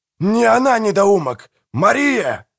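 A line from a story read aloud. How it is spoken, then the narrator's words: Roared. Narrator (Russian): взревел Манфред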